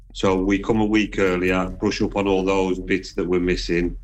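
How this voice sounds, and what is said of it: Black Country Midlands accent. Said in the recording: “your accent, because she too is from the Midlands ... I am Black Country. I'm on the edge of Walsall and Wolverhampton”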